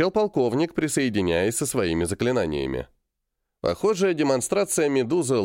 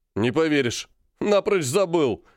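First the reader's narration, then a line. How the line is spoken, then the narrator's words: Loud laughter. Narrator (Russian): расхохотался он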